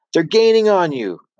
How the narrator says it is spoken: shouted

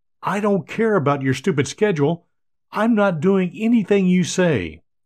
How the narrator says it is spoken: Tom defiantly exclaims

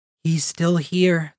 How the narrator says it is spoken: the Spren whispered

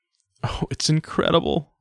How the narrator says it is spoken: sobbed Nanette

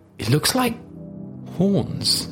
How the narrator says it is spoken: stopped in his tracks for a moment, before whispering

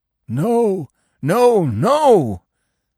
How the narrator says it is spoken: the dog howled

